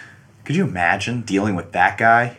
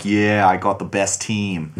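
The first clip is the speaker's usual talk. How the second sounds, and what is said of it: Boston accent. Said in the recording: “That's a really good Boston accent, excellent.”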